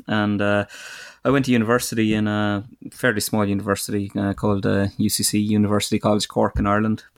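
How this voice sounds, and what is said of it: Irish accent, southwest Ireland. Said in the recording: “you might tell from my accent, I'm Irish, but so I'm from the south of Ireland, southwest of Ireland, County Kerry.”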